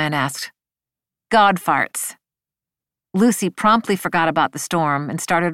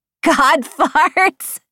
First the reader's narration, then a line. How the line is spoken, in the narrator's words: she said, giggling